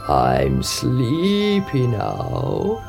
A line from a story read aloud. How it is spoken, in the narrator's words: he croaked